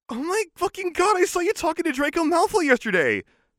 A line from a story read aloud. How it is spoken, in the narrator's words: said excitedly